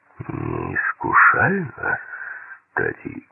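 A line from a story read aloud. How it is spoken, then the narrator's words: Said through clenched teeth. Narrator (Russian): процедил Крамер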